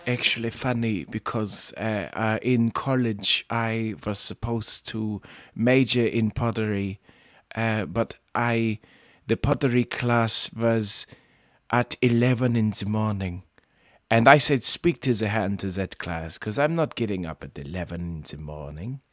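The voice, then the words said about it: Werner Herzog impression, German accent. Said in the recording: “my Werner Herzog impression, I guess. If anybody has ever heard of the German film director Werner Herzog, that's my topical impression”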